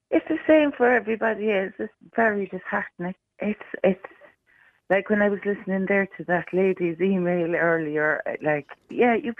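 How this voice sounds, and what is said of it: Cork Irish accent. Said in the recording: “I'm just from down in Cork ... I still love that accent”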